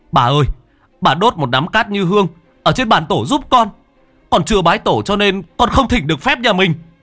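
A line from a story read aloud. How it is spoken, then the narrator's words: Nearly shouting. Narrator (Vietnamese): Cha nói như hét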